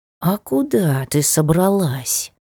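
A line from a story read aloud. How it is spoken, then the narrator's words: Suspicious hiss. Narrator (Russian): С подозрением прошипел котик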